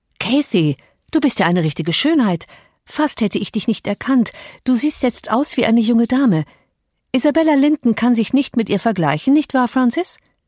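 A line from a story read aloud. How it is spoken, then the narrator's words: Enthusiastic call. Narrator (German): Hindley rief begeistert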